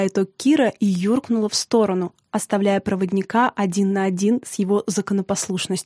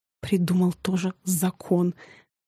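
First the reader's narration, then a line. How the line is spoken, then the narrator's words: Mocking whisper. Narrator (Russian): шепотом передразнил его Тарас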